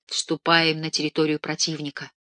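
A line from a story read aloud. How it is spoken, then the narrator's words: Whisper. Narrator (Russian): шепотом сказал я Хайдеру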